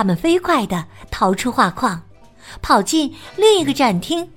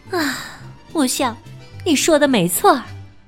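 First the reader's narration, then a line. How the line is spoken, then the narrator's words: Resigned sigh. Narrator (Chinese): 蒙娜丽莎只好叹了口气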